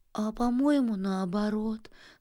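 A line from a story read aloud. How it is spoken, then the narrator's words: Miserable moan. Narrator (Russian): стонала несчастная Пуховочка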